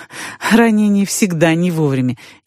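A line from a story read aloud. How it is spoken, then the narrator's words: Laughing. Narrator (Russian): я засмеялась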